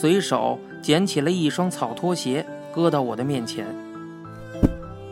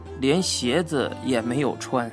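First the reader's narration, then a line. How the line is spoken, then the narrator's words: Sighing. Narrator (Chinese): 郭老 叹道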